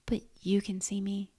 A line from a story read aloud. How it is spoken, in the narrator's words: said softly